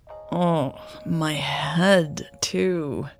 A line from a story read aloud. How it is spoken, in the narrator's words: Raven groaned